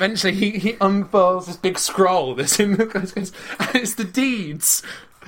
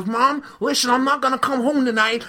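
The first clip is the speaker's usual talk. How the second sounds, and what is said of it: Imitates another person's voice. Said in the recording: “This is a really good Adam Sandler impression.”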